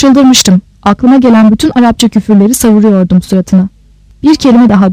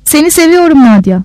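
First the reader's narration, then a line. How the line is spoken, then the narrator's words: Sobbing. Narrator (Turkish): dedim hıçkırarak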